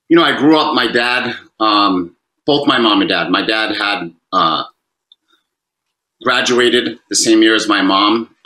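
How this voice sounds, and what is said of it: Fall River, Massachusetts accent. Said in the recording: “we can tell by your accent, in Fall River, Massachusetts”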